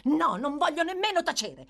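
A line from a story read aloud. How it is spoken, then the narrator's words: Shouted reply. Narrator (Italian): rispose Nancy urlando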